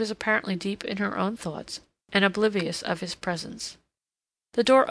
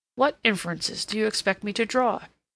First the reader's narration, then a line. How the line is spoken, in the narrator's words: said sharply